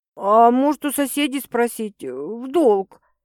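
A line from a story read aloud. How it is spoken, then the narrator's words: Uncertain suggestion. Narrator (Russian): неуверенно предлагает Лариска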